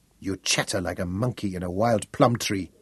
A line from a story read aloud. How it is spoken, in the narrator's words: Sali told him scornfully